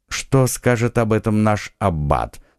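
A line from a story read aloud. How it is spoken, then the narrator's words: Calm inquiry. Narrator (Russian): спокойно осведомился Атос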